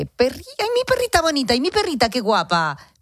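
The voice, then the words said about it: Baby-talk voice. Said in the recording (Spanish): “con voz de bebé”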